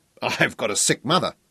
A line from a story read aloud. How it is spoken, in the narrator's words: Fergus chuckled